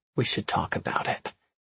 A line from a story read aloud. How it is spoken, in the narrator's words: Elliot said quietly